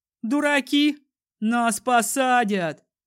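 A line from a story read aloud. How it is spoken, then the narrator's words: Shout. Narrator (Russian): крикнул Стас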